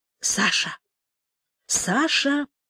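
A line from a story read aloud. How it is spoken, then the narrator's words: Quiet calling. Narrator (Russian): тихо позвала она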